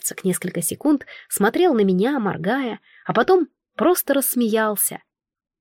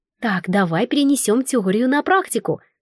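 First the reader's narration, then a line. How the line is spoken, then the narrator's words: Exclaimed. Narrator (Russian): воскликнула я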